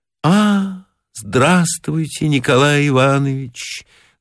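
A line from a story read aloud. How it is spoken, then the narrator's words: Sad voice. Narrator (Russian): грустным голосом сказала Маргарита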